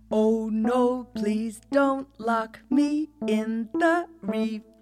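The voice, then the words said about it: Sung line with sob and twang. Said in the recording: “I can hear a bit of sob in my bottom, I can hear a bit of twang in my top”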